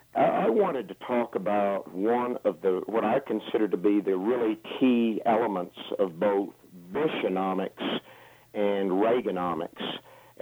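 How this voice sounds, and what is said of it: Southern US accent. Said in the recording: “you have a southern accent”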